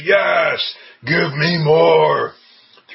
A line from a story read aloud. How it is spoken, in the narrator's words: you roar in Spanish